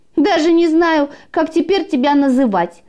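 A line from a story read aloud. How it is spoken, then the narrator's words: Mocking laugh, piglet. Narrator (Russian): смеялся поросенок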